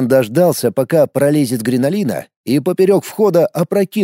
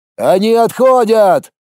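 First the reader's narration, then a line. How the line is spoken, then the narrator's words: Shouted. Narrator (Russian): крикнул Колян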